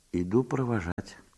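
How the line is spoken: Quiet. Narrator (Russian): тихо сказала ей Марья Степановна

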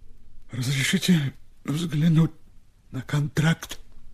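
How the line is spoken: Quiet request. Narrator (Russian): тихо попросил Степа

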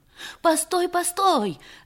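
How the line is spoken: Shouting. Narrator (Russian): закричала Анисия

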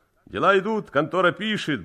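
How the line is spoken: Cheerful reply. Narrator (Russian): бодро откликнулся Цимбал

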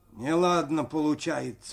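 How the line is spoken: Muffled. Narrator (Russian): глухо сказал Максим

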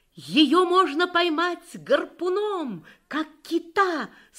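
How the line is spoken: Triumphant exclamation. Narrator (Russian): с торжеством воскликнул

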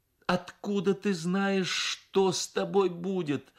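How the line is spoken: Mother speaking, then sobbing. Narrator (Russian): сказала мать и разрыдалась

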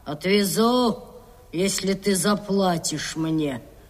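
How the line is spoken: Grumbling. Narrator (Russian): Капитан проворчал

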